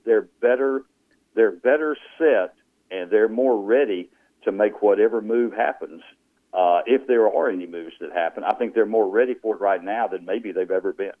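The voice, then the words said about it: Rural North Louisiana Southern accent. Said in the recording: “you mean you can still hear my redneck accent? ... you still sound like you're from North Louisiana”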